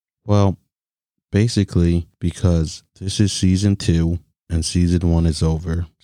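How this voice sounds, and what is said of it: Flat, sad, robotic delivery. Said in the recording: “Why do you sound so sad? Why do you sound like a robot?”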